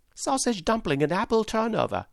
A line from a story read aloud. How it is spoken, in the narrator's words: shouted the boy